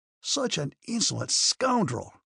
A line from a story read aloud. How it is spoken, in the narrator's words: he cried, growing hot again